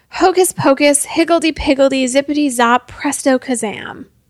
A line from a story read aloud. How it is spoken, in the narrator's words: Feeling like an idiot, cried out